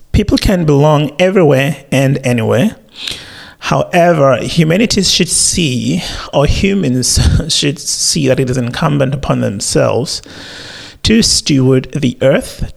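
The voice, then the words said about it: Crackly, early-morning voice. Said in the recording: “My voice is crackling, still morning.”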